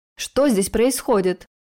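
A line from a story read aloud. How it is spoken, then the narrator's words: Growling bark. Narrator (Russian): Наполовину прорычал, наполовину рявкнул лорд Драгуаратх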